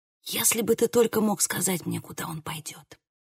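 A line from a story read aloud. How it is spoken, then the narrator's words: Whispering. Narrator (Russian): прошептала я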